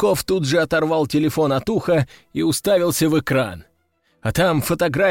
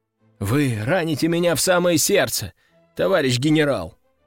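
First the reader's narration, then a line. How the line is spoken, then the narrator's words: Sighing. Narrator (Russian): вздохнул Константин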